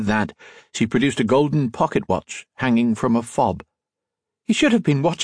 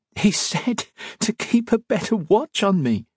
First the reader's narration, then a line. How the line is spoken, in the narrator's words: she said between giggles